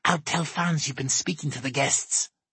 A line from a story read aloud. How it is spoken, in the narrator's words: she hisses